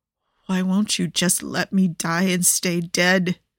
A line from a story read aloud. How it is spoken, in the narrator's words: He murmurs